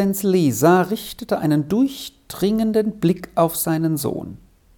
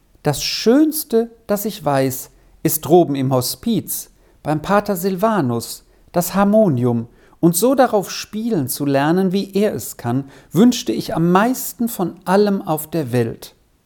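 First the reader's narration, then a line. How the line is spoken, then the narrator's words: Plain. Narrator (German): sagte Vinzi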